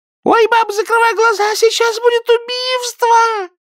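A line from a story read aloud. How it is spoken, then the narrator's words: Shrill scream. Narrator (Russian): пронзительно закричала Зинаида Волкова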